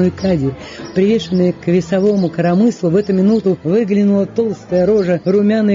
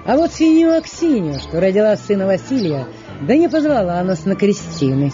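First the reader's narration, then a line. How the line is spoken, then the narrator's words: Bold, cheerful young man. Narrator (Russian): смело и весело рассказывала молодец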